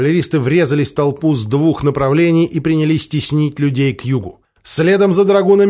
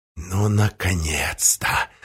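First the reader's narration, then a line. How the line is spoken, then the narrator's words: Mutter. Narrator (Russian): пробормотал Зобчик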